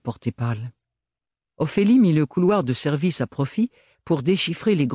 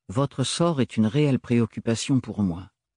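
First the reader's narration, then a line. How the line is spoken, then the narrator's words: Plain. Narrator (French): avait-il dit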